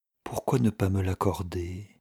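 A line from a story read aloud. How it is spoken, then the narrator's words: Murmuring. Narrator (French): murmurait-il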